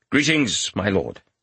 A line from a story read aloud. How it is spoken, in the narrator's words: Tirad said curtly